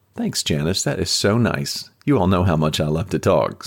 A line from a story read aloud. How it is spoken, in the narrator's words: Samantha said with a smile